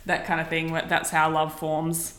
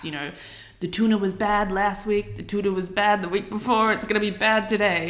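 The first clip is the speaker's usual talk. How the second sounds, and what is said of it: Terrible put-on accent. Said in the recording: “that was a terrible accent”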